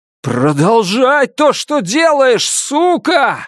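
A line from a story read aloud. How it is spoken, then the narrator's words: Yelling. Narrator (Russian): завопил я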